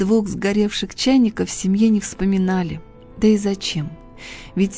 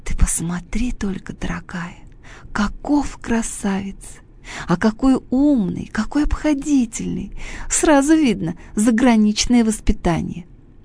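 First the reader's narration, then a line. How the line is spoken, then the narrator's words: Delighted whisper. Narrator (Russian): Хрустальная ваза в восторге шептала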